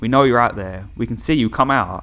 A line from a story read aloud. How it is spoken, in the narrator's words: They yelled out to us